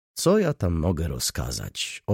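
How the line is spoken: Plain. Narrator (Polish): odparł

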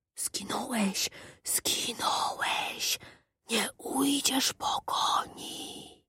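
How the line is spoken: Whispering. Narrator (Polish): szeptał szept

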